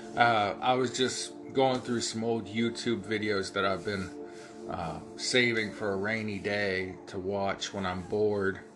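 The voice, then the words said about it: Ohio hillbilly accent. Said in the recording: “Like I have my Ohio hillbilly accent.”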